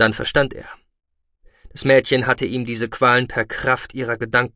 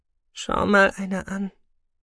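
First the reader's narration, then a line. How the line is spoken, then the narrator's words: Murmuring. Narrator (German): Sahira murmeln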